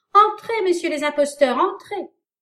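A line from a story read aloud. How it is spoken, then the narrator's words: Exclaimed laughing. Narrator (French): s'écria-t-il en riant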